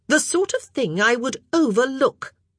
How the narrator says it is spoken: she said haughtily

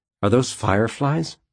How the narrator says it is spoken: he asked

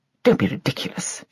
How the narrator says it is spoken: she muttered

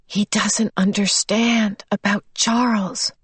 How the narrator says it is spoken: she whispered to Calvin

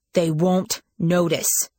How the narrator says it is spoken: said Simon stiffly

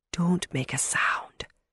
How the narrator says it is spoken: she whispered

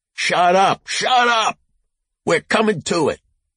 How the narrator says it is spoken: Rosie started stomping on the floor and shouted

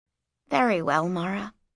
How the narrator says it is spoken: said Inanni softly

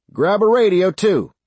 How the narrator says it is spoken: Sarge shouted

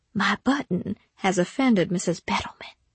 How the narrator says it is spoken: whispered

